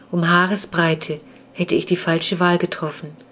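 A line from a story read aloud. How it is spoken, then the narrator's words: Flat toneless voice. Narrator (German): sagte er mit tonloser Stimme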